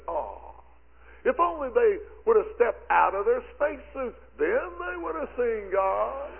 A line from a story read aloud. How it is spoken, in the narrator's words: Criswell, exclaimed to his people, and he said